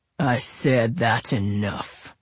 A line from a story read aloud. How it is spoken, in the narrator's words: Royal growled